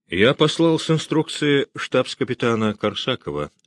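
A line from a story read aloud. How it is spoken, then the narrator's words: Plain. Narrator (Russian): ответил Муравьев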